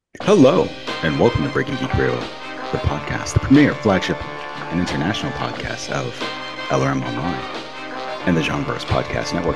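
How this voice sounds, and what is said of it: Public radio host voice. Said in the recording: “I like your NPR voice.”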